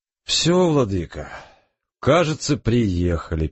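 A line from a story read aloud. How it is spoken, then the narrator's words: Sad. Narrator (Russian): печально сказал Александр Павлович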